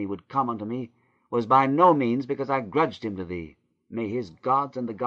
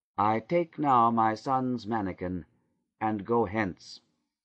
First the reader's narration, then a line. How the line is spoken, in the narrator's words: said Leah coldly